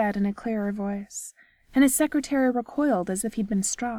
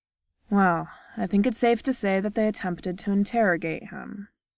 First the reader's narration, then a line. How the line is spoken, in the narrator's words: the neurologist said coolly across this